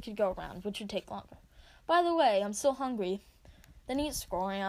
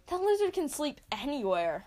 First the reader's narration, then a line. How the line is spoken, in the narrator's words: I exclaim, surprised